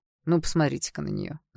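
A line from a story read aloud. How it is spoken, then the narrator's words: Snide, smiling. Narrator (Russian): Заулыбался он ехидно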